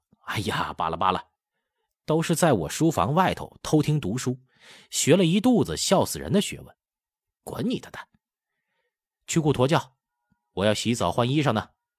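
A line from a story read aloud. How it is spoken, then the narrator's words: Uncontrollable laughter. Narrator (Chinese): 福康安笑不可遏 说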